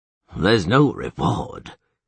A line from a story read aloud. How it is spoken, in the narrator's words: he said gloomily